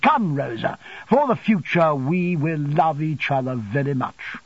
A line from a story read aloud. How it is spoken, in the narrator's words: had put his arm laughingly about her and had said